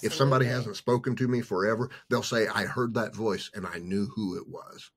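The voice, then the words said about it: Weird, hard-to-place accent. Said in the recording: “the trauma that I had, it kind of gave me this really weird, hard to pin down accent”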